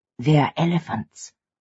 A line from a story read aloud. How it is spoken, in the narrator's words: she whispered